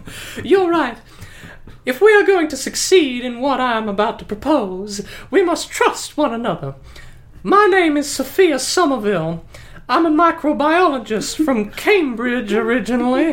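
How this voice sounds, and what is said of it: Muddled put-on character accent. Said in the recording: “Accent's a little muddled.”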